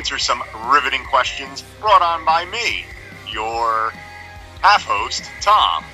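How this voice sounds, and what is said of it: 70s game show host voice. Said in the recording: “I did my 70s game show voice there... It was sexy.”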